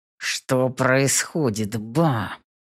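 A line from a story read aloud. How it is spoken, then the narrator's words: Muttered through teeth. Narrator (Russian): Цыжу сквозь зубы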